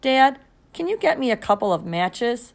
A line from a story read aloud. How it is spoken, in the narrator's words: I asked